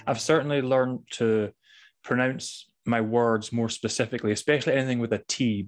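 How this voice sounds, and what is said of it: Scottish accent with silent T's. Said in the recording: “fellow Scot... What a breath of fresh air to hear your accent... I naturally have silent T's”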